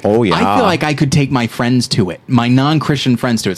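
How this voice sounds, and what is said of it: Mock Midwestern housewife voice. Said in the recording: “I'm doing a voice, I'm sorry... Your Midwestern housewife.”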